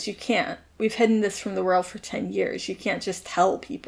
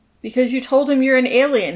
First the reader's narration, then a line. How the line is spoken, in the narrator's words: his dad shouts